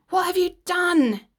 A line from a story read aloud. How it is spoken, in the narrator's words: screeched